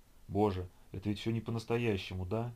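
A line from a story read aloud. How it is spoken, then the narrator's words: Whisper. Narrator (Russian): шептал он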